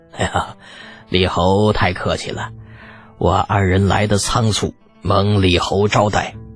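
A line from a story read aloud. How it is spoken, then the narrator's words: Cheerful, modest. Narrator (Chinese): 两位家主笑得无比开心，还是谦逊道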